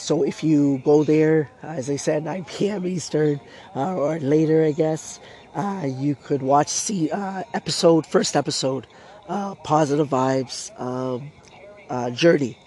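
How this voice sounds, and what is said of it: Strained, fading voice. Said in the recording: “I'm losing my voice. My throat has been hurting under the weather once again.”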